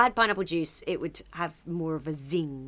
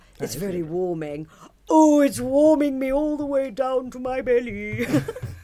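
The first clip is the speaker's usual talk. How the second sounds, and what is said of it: Silly deep imitated voice. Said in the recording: “did my Elizabeth Holmes voice ... the silly deep voice”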